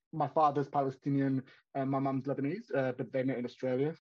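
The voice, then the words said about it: Australian accent. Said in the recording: “As you can probably tell by my accent, I was born and raised in Australia, in Sydney.”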